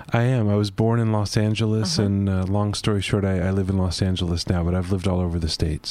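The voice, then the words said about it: American accent. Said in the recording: “you have an American accent, am I right?”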